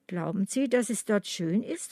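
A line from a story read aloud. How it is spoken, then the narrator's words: Plain. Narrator (German): fragte Agnes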